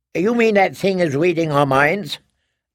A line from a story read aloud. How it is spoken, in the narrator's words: Lyson said sharply